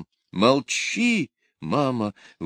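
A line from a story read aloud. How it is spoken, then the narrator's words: Frightened exclamation. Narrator (Russian): воскликнула Аделина, бледная, как смерть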